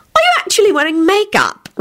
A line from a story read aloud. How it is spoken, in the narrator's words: Rosie said in a shocked tone